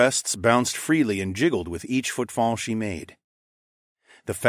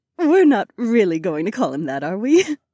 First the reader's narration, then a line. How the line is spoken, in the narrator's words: Aliona giggled